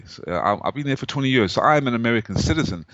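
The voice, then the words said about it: South African accent. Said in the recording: “my accent, I came from South Africa”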